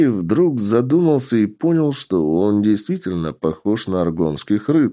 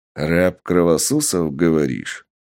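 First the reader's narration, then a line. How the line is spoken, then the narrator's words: Menacing monster snarl. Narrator (Russian): злобно оскалившись, произнес монстр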